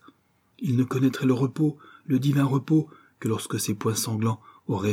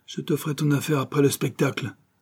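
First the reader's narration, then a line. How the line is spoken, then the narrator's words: Hissed by enemy. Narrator (French): siffle son ancien ennemi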